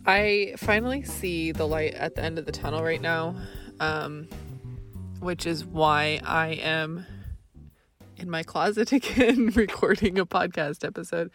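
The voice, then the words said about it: Congested, rough voice. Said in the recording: “I have allergies right now, so excuse my voice.”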